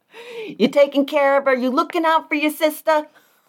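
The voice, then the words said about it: Put-on New Jersey accent. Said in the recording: “I don't know why she's from Jersey all of a sudden.”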